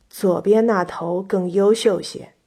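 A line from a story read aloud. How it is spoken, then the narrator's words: Old farmer, low voice. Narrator (Chinese): 老农压低了嗓音对相国说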